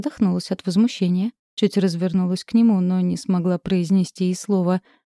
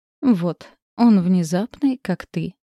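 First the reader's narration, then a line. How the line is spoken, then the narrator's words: Short chuckle. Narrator (Russian): хохотнул Доминик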